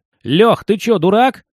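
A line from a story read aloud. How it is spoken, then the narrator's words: Shouted. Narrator (Russian): закричал Мишка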